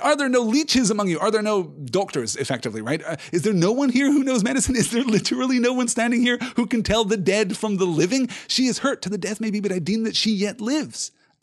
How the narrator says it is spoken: he cried

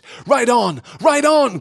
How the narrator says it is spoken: cried Glorfindel

